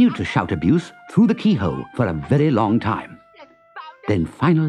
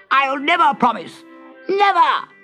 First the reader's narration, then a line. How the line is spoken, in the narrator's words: Kicking and shouting abuse, Toad